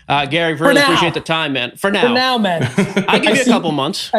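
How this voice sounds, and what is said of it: Boston accent. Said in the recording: “I'm a Boston guy, as you know from the accent.”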